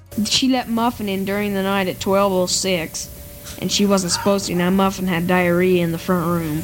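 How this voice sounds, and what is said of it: Child with almost southern accent. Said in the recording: “a strangely almost southern accent”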